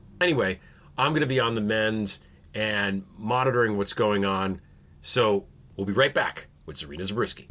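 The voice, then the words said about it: Congested voice from a cold. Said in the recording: “Maybe you can hear it in my voice. I'm still a little bit congested.”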